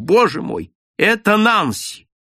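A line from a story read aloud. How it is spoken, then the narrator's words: Inhuman cry. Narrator (Russian): вскрикнул нечеловеческим голосом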